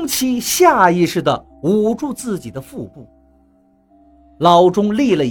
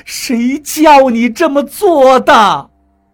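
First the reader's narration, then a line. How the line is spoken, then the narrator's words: Stunned loud shout. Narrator (Chinese): 老钟 愣了一会儿，大声喊道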